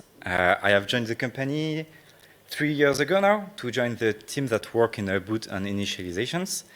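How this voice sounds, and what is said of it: French accent. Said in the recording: “As you can guess from my accent, I come from France.”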